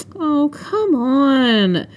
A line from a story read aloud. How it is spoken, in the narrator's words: I whined